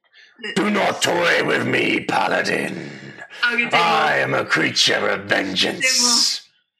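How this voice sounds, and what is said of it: Booming deep character voice. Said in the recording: “you get this booming, deep voice”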